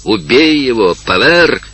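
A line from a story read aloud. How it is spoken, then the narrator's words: Group shouting. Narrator (Russian): кричали ему его товарищи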